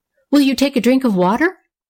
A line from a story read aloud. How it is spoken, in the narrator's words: asked the hospitable Nora eagerly